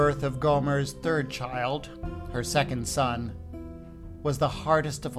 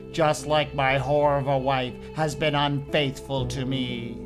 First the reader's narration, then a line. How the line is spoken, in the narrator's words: thundered